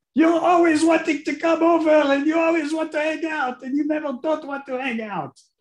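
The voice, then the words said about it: Put-on Israeli accent. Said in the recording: “in the Israeli accent”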